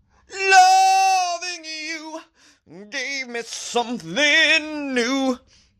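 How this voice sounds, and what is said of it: Sung impression of another singer. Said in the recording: “You guys like my Jeffrey Osborne impression?”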